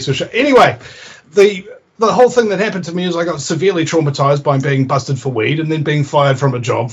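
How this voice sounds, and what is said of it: New Zealand accent. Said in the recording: “I'm from New Zealand, you know, and I've got that incredibly sexy accent ... it's just like chocolate rolling into your ear places”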